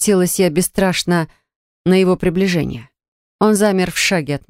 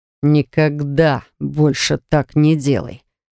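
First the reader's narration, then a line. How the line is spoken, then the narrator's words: Menacing growl. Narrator (Russian): угрожающе прорычал он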